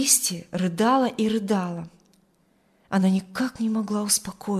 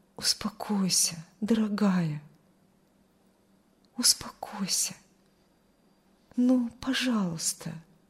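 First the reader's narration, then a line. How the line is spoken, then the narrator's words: Soft whisper. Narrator (Russian): тихо шептал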